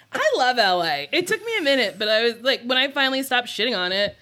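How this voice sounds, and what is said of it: New Jersey accent. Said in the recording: “New Jersey ... Hear the trash in my voice. ... Jersey girl.”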